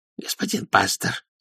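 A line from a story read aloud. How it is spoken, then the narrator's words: Hoarse whisper. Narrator (Russian): сказала она хриплым шепотом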